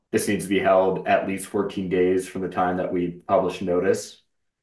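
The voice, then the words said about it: Hoarse, sick-sounding voice. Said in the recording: “sorry if I'm sounding a little hoarse here. I'm unfortunately a bit sick”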